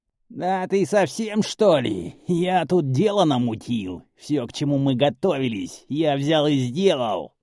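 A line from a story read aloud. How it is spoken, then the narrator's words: Indignant hoarse rasp. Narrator (Russian): Возмущенно прохрипел похожий на комара парень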